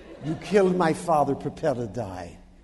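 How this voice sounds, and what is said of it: Put-on foreign villain accent. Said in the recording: “This is a Philistia accent here.”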